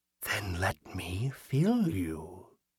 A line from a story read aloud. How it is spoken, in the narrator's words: the figure whispered